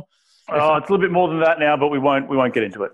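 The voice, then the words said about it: Australian accent. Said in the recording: “got a weird accent because he's from down under”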